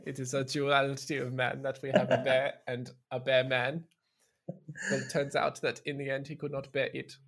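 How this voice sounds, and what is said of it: Werner Herzog impression. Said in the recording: “do a Werner Herzog impression”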